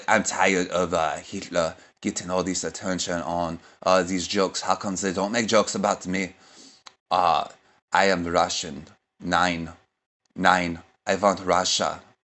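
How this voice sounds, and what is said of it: Impression of Putin, Russian accent. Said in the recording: “my stupid impression of Putin”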